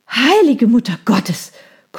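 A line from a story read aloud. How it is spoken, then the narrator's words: Gasping. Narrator (German): keuchte ich, während ich mich zur Seite warf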